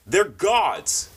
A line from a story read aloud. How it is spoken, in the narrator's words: Conagher shouted